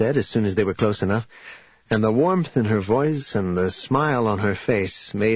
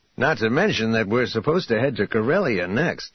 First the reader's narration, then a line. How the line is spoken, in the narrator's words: Lando said